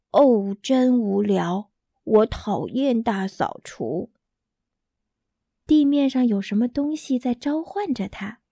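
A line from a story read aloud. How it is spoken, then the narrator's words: Exclaiming. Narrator (Chinese): 鼹鼠感叹道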